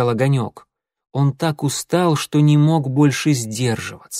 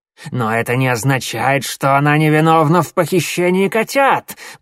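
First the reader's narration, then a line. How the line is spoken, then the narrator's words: Hissing. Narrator (Russian): прошипел Коготь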